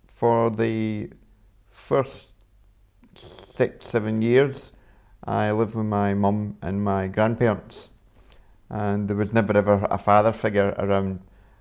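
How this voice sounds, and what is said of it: Glasgow Scottish accent. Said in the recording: “I was born with my accent, you can probably tell. I was born in Scotland, up in Glasgow”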